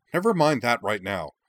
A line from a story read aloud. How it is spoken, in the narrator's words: the young prince snapped, his eyes blazing